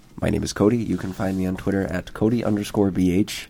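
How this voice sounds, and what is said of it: Throaty, sick-sounding voice. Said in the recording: “I've got a good radio voice today because I'm sick... the throatiness you're bringing here”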